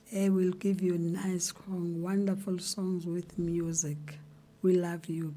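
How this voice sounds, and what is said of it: Voice affected by a cold. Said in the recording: “Sorry for my voice. My voice today, it's cold.”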